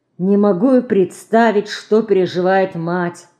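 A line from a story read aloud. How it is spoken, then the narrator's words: Sighed. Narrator (Russian): вздохнула Марина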